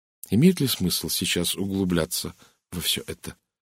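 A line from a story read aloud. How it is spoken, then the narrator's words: Calm woman's question. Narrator (Russian): спокойно спросила Кристина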